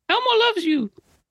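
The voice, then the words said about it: Elmo character voice impression. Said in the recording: “do an Elmo voice? ... There we go. Boom. ... He got it.”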